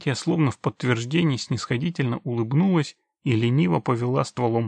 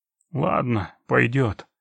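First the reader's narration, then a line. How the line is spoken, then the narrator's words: Satisfied grumble. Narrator (Russian): буркнул он удовлетворенно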